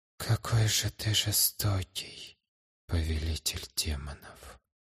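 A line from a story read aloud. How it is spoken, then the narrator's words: Whisper. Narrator (Russian): прошептал я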